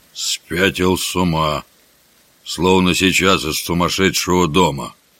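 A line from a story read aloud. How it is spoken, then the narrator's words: Amazed mutter. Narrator (Russian): С изумлением Джон Кенти пробормотал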